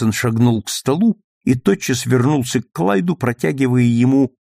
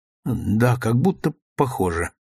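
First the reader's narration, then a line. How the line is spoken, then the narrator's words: Unsteady voice. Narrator (Russian): нетвердым голосом ответил Клайд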